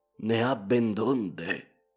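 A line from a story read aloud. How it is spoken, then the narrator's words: Whispered. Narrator (Italian): mi sussurrò Ivan Matveich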